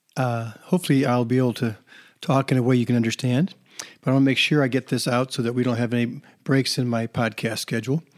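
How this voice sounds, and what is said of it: Slightly hoarse voice. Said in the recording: “apologize for my voice. It's a little bit hoarse today because it's allergy season”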